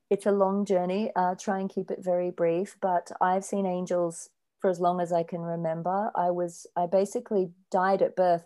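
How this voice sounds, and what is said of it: Australian accent. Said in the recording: “your voice is amazing ... I love your accent, it's beautiful, and I can hear the Aussie coming through.”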